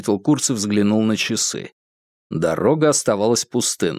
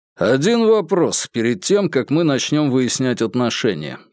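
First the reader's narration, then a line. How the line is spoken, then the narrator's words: Plain. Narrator (Russian): сказал Курц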